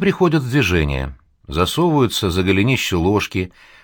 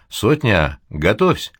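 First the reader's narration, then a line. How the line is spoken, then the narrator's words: Short, quiet command. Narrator (Russian): говорит Гамалей и коротко, негромко командует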